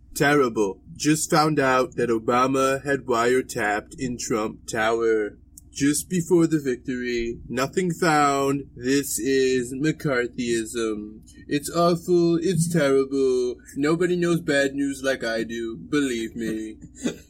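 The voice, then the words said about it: Imitates another person's voice. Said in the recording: “That's my Trump impression.”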